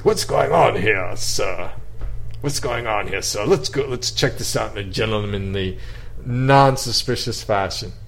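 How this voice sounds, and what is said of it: Put-on distinguished English accent. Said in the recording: “in my distinguished English accent that I don't even have yet”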